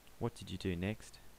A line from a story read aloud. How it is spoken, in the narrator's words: Ian asked gently